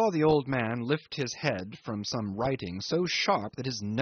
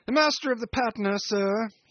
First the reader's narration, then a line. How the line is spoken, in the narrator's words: he shouts